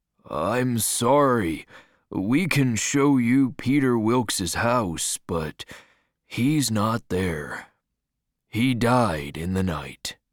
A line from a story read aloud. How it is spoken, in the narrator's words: the man said sadly